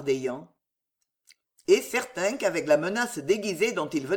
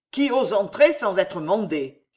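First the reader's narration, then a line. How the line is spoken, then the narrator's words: Growled. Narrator (French): gronda Charles IX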